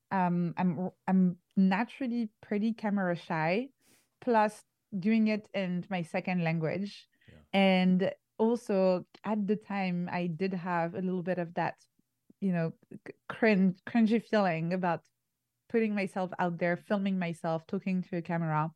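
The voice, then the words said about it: Non-native English accent. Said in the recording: “you can probably hear from my accent, I'm not a native English speaker”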